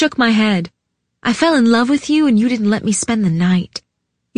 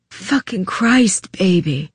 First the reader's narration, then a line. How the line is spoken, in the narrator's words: he whispered